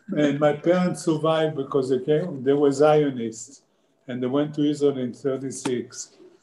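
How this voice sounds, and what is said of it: Israeli-accented English. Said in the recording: “You hear my accent. I was born in Israel.”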